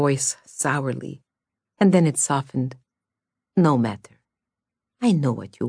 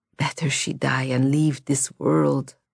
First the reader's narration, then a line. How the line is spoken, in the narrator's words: croaked Constantine